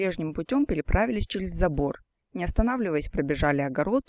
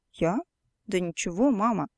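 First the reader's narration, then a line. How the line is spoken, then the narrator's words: Puzzled child's voice. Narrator (Russian): недоумевающим голосом отвечала девочка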